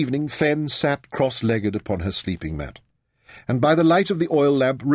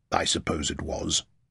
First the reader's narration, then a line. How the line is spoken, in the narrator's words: admitted gruffly